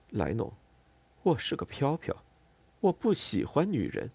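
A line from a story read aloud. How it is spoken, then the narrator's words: Whispering close. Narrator (Chinese): 在我的耳边低声说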